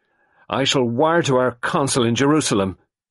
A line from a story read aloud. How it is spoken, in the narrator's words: Lennox Boynton said angrily